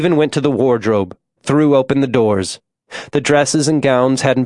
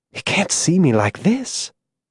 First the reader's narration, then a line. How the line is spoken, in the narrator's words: She whispered